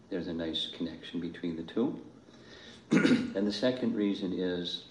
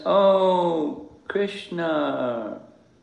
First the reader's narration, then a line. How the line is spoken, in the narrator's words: Terrified, Nanda cried out in distress